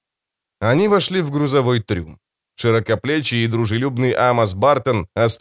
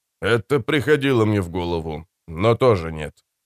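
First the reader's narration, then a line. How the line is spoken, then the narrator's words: Amused snort. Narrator (Russian): хмыкнул Фред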